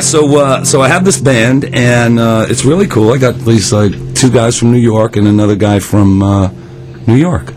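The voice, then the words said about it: Hoarse, worn-out voice. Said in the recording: “My voice is a little shot.”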